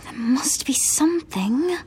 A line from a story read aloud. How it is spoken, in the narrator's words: Hermione muttered